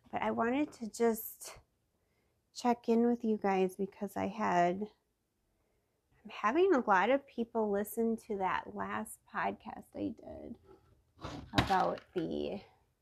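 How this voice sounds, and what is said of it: Congested, stuffy-nosed voice. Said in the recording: “the sinuses are so bad that my hearing is off ... my voice is a little bit better”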